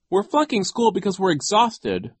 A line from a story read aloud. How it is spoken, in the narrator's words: Violet cried